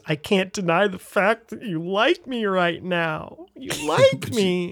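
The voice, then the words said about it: Imitates another person's voice. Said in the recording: “That was a pretty good impression. ... that's my impression of Jim doing Sally.”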